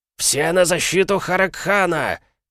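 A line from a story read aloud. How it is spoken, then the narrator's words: Commander's shout. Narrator (Russian): прокричал командир клыкастых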